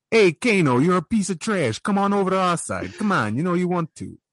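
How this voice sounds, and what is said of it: Boston or New York accent. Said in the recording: “He had that weird, like Boston, New York accent”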